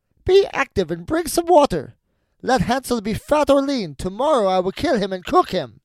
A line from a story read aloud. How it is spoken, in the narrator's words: she cried to the girl